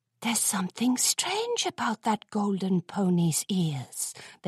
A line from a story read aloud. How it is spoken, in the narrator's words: they whispered